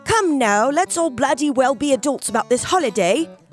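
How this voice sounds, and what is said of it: Put-on British accent. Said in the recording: “affecting a British accent”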